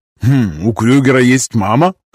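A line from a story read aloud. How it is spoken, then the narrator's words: Skeptical hmph. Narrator (Russian): хмыкнул Гай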